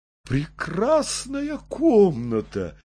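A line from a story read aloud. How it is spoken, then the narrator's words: Exclaiming. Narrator (Russian): воскликнул Забежкин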